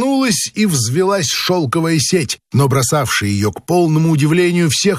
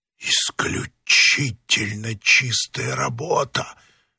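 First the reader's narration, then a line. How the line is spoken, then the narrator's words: Whisper. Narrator (Russian): шепнул один из вошедших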